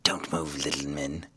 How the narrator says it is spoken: whispered a voice

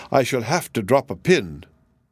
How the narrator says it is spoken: exclaimed

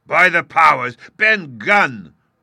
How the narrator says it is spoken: roared Silver

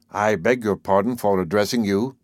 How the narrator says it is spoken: he said

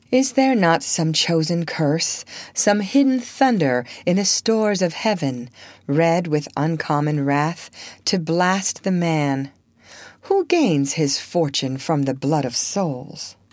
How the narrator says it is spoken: exclaim with the poet

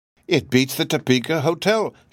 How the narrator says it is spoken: she cried admiringly

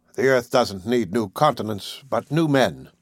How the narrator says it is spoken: he answered me coldly

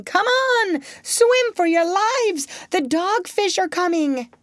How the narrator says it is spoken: another family of fidgets came rushing by, shouting

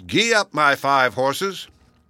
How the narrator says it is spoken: Little Klaus forgot that he must not say it and called out

